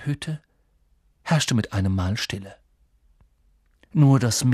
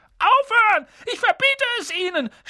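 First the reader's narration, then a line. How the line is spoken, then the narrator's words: Panicked shout. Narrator (German): schrie Onkel Vernon in Panik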